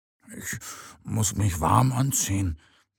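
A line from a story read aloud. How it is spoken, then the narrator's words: Sleepy murmur. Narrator (German): murmelt Mo noch ganz verschlafen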